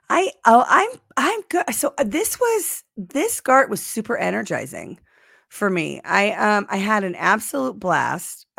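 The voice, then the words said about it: Strained, fading voice. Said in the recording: “I'm losing my voice a little bit... I'm going to rest my voice because it needs to happen.”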